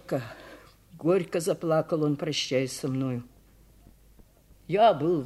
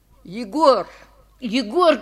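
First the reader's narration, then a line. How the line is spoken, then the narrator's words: Shouting. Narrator (Russian): кричал я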